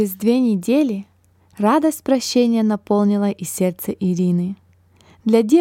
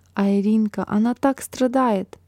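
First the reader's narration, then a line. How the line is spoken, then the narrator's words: Whispered in ear. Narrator (Russian): Марина прошептала сестренке на ухо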